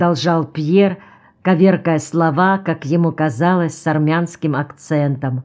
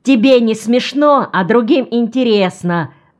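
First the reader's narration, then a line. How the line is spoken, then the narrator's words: Shouting. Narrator (Russian): закричал Ремка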